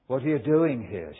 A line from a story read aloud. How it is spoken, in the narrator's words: she said